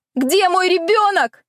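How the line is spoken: Desperate female scream. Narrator (Russian): заорала отчаянно

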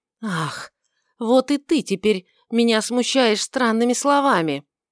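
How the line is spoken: Almost angry exclamation. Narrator (Russian): воскликнул Варавва почти гневно

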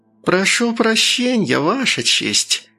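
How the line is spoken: Hissed. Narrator (Russian): прошипел адвокат

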